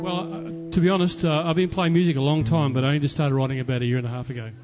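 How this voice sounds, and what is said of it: Australian accent. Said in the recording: “got a bit of an accent. ... Australia.”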